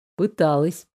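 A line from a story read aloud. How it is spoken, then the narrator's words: Calm confirmation. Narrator (Russian): спокойно подтвердил Фредерик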